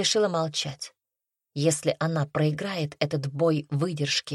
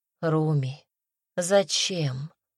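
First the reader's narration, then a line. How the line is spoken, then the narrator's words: Sad question. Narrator (Russian): печально спросил царевич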